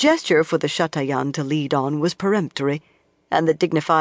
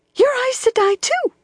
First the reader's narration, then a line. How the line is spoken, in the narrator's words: the woman squeaked